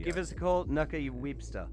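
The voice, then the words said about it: Poor put-on New Zealand accent. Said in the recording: “Your New Zealand accent. ... That was terrible.”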